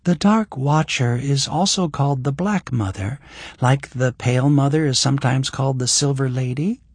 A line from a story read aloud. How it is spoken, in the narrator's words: Eleanor said in a light voice